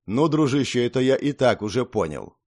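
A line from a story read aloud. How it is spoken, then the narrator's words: Inner snort. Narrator (Russian): хмыкнул я про себя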